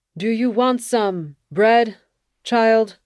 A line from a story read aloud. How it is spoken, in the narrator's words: I called out